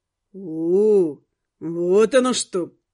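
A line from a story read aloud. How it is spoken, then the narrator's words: Drawled. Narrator (Russian): протянул водник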